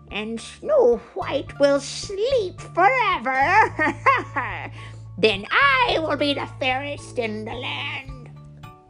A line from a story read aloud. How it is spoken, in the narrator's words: cackled